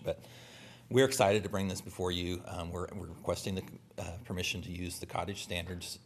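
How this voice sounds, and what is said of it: Strained, fading hoarse voice. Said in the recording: “I'm starting to lose my voice”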